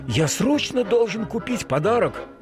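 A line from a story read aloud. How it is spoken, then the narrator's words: Exclaimed. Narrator (Russian): воскликнул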